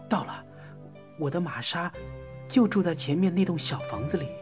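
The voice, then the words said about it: Quiet, hushed speech. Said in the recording (Chinese): “小声地说”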